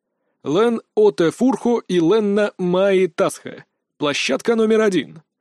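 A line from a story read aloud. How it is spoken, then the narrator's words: Booming over loudspeakers. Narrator (Russian): прогремело из динамиков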